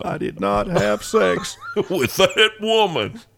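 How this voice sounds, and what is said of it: Imitates another person's voice. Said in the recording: “my sorry attempt at a Bill Clinton impersonation, which I didn't rehearse at all”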